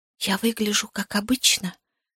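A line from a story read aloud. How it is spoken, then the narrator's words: Whisper. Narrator (Russian): прошептала я Сэрлу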